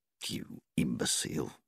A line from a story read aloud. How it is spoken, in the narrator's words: she muttered